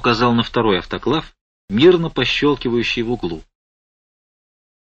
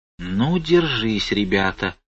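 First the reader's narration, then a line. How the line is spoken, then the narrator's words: Whisper from crowd. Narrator (Russian): прошептали в толпе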